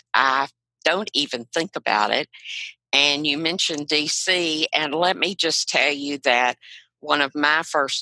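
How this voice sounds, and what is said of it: Southern US accent. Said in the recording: “she has a really great accent ... this accent I have comes from being born in South Carolina ... my father's home state of Arkansas. So I grew up with this accent”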